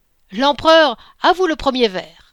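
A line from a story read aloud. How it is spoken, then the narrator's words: Shouted. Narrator (French): cria Rouget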